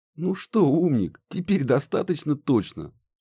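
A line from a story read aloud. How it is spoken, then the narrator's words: Giggle. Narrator (Russian): хихикнул Муха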